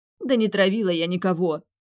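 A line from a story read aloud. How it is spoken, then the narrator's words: Angry tearful retort. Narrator (Russian): бросила зло, вытирая мокрые щеки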